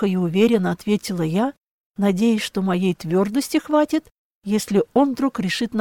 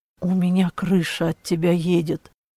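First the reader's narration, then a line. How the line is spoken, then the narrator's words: Quiet confession. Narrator (Russian): тихо признался Клаус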